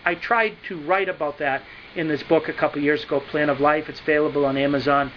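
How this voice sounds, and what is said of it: New England accent. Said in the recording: “my New England accent”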